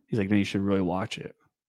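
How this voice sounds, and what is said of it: Deliberately lowered, deeper voice. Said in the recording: “Why did he say it like that? Why did his voice get lower?”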